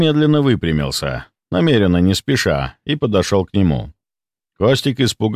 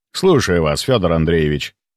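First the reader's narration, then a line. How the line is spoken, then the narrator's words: Even tone. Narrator (Russian): ровным тоном сказал я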